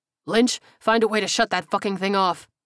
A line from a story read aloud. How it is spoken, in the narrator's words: he barked